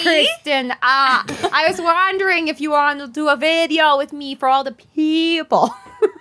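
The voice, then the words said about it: Tommy Wiseau accent impression. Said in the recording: “I just imagine Gal Gadot has, Tommy Wiseau accent.”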